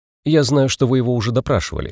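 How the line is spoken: Plain. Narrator (Russian): сказал я детективам

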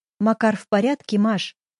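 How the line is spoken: Plain. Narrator (Russian): спросила я

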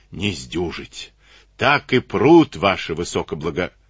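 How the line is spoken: Hoarse rasp. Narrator (Russian): прохрипел

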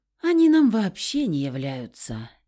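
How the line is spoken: Heavy sigh. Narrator (Russian): тяжело вздохнула я

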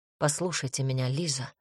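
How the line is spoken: Calm. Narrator (Russian): спокойно проговорил Джарганец

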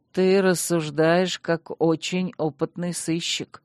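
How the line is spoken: Grim chuckle. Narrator (Russian): мрачно усмехнулся магистр

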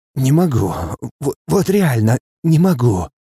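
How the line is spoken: Hoarse breathless exhale. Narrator (Russian): С хрипом выдыхаю я

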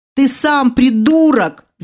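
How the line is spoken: Shouting through shock and pain. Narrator (Russian): заорала ему в ухо, совладав шоком и болью

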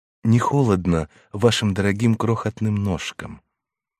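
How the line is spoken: Worried, tender question. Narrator (Russian): Он затревожился, спросил нежно

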